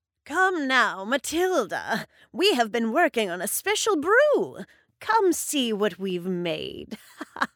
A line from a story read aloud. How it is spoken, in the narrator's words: said Gruella, cackling